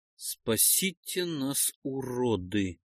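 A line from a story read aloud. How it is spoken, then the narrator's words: Thoughtful. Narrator (Russian): задумчиво повторил я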